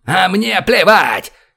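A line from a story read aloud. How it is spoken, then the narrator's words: Shout. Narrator (Russian): крикнул Борис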